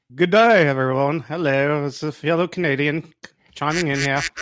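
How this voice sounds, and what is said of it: Poor put-on Australian-sounding accent. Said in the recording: “That is the worst ... his Australian accent was to a Canadian accent”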